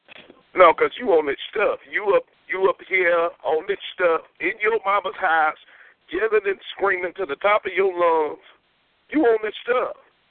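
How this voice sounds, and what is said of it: Thick country accent. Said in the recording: “Your country accent is so damn retarded... I don't even understand what you saying”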